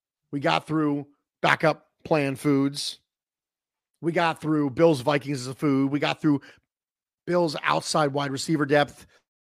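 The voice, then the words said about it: Strained, failing voice. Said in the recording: “my voice is beginning to fail”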